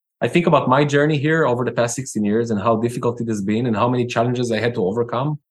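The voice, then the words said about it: Foreign-accented English. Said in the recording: “as you can tell, a foreign accent”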